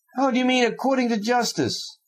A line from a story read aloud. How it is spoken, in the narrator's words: Fyodor Pavlovich cried, still more gaily